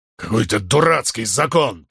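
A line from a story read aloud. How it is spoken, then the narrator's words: Grumbling. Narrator (Russian): проворчал Грин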